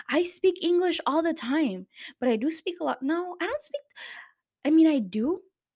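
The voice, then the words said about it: Thick Spanish accent in English. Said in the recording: “my accent is super thick today ... I talk to my dogs only in Spanish”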